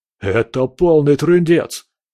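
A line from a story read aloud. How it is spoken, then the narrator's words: Shouted. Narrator (Russian): крикнул Боря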